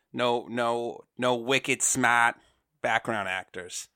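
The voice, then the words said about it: Put-on Boston accent. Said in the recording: “That's enough of my Boston accent.”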